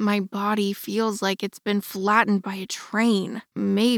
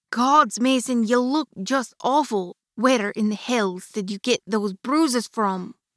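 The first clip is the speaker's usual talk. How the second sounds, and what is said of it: Sing-songy heavy Scottish accent. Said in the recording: “sing-songy voice, thick with her heavy Scottish accent”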